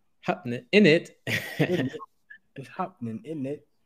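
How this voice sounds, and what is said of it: Very bad put-on British accent. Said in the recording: “that's a very bad uh British accent”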